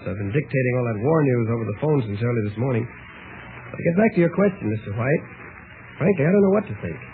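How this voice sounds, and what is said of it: Slightly hoarse male voice. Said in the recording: “what's happened to your voice ... I'm just a little hoarse.”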